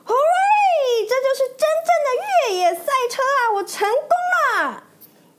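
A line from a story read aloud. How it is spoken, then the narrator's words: Excited shout. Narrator (Chinese): 他兴奋地大喊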